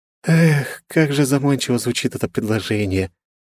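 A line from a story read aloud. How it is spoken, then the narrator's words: Theatrical sigh. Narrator (Russian): театрально вздохнула Вета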